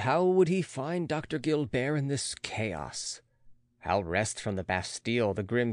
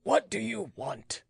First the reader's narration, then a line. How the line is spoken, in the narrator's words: asked he in an undertone